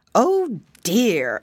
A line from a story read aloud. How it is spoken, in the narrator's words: exclaimed the teacher